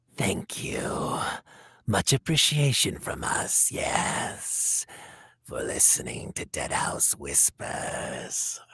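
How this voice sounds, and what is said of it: Spooky ghoul character voice. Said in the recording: “in your best ghoul voice”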